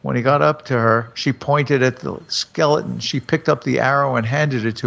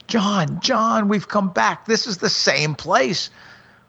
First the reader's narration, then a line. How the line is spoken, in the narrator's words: they heard her screaming